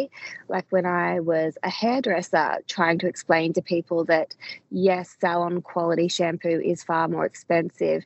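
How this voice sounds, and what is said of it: Voice going hoarse. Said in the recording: “my voice is going”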